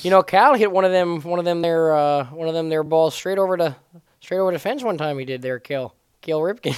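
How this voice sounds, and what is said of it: Put-on Baltimore accent. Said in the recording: “is that a Baltimore accent?... it's a pretty funny accent”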